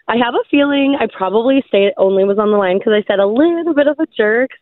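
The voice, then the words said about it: Scratchy, cracky voice. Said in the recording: “Sorry about my voice... it's a little scratchy... It's just a little cracky”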